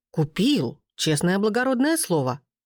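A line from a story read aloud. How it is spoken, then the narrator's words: Exclamation. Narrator (Russian): Воскликнул секретарь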